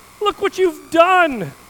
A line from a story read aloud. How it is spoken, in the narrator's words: cried the carpenter